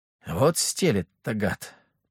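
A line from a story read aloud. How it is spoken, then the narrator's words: Mumbling. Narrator (Russian): пробормотал Леха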